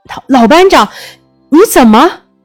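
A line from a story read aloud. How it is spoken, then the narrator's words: Choked, shocked cry. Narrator (Chinese): 失声喊起来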